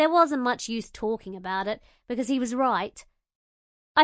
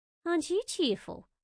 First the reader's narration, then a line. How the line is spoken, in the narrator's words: muttered